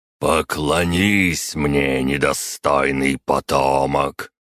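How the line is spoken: Primarch's growl. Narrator (Russian): прорычал примарх

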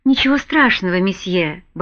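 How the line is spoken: Muttering. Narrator (Russian): бормотал Гиннес

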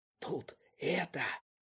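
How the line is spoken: Hiss. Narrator (Russian): прошипел

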